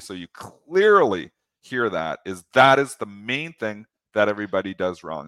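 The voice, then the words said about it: Speaking very slowly and deliberately. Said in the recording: “I'm talking very slowly”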